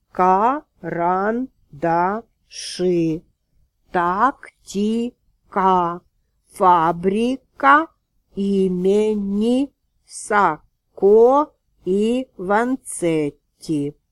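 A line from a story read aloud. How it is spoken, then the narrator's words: Deliberately loud, clear reading. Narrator (Russian): нарочито громко и четко прочел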